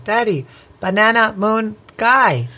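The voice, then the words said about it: Cute small child's voice. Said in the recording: “I'm trying to do her cute voice. Did it sound cute?”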